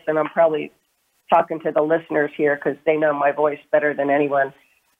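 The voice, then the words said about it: Sick-sounding voice with throat tickle. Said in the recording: “as you can hear in my voice ... I am struggling once again with a little bit of an upper respiratory issue ... got some kind of a little tickler going on”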